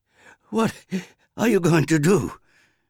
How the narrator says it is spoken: her mother panted from her run

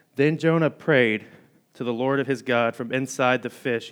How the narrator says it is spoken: he said

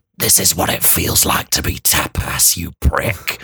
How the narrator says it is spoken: whispered 100 voices from all around me

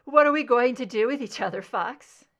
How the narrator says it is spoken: She chuckled

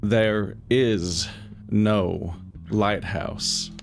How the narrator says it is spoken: he slowly, quietly says

